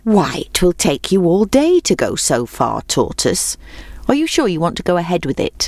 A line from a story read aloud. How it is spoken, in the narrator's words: asked the hare